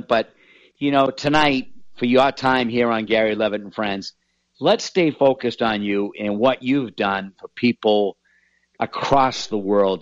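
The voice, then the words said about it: Boston accent. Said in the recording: “You made fun of my Boston accent ... I still make fun of your Boston accent ... it's there. It's prevalent.”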